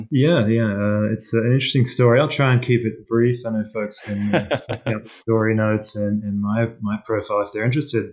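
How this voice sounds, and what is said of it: Australian accent. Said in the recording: “Your accent kind of gives it away that, you know, you were born and raised in Australia.”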